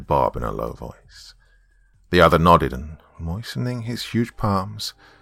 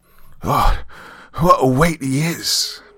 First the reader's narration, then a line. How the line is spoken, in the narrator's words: panted Bob